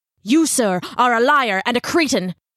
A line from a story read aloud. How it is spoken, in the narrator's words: Ichabod snarled